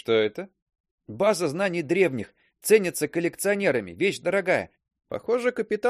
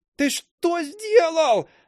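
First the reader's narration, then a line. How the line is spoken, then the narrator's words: Shouting. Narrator (Russian): закричала остроухая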